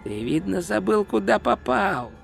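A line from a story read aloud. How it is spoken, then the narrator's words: Dry hiss. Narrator (Russian): прошипел другой голос, сухой как труд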